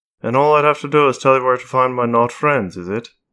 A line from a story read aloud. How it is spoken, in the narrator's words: She asked flatly